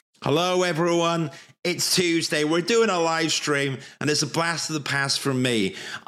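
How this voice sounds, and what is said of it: Croaky, slightly unwell voice. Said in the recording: “I sound a bit croaky ... A little bit unwell ... cold or man flu”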